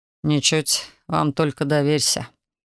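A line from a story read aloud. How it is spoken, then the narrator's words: Grumbling. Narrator (Russian): проворчал Александр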